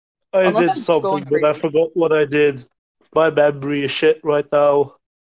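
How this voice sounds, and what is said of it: Sick, hard to understand voice. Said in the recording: “I didn't understand a single thing you said. ... my voice is that bad. ... You don't get a free pass for being sick.”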